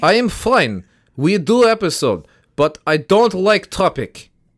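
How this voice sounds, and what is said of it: Put-on Russian accent. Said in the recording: “Is the cold supposed to give you a Russian accent?”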